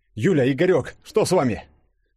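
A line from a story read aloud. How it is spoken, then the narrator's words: Exclaimed. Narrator (Russian): воскликнул Денис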